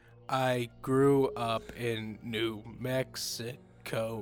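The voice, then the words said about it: Creepy voice. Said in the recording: “this is a good creepy voice.”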